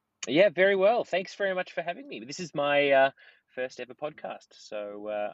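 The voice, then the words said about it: Australian accent. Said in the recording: “we actually have somebody with an Australian accent”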